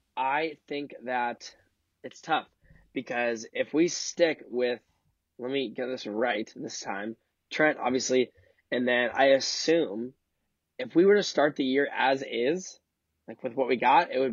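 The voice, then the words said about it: Voice sounds bad. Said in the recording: “My voice is horrible. I'm sorry, everybody.”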